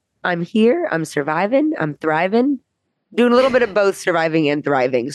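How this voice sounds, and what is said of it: Congested, slightly altered voice. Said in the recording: “I have a little bit of a head cold, so my voice is a little different”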